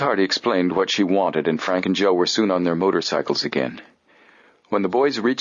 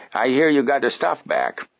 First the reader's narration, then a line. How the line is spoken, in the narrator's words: he grunted